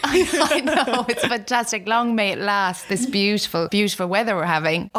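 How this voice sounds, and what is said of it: Softened west of Ireland accent. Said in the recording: “your accent... I'm from the west of Ireland, from Galway... my accent sort of softened”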